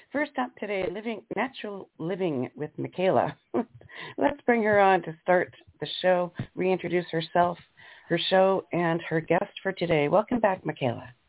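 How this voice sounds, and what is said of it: Hoarse, fading voice. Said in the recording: “there's my voice going away ... losing your voice”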